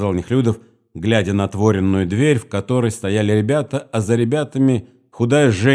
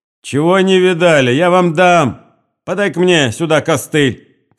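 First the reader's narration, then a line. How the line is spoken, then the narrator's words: Old woman shouting. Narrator (Russian): крикнул старуха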